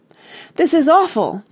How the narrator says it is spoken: Jane cried

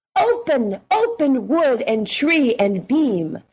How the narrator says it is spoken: they cried to the door

